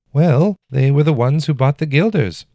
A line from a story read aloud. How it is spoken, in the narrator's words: Olaf said, his voice higher and faster than he liked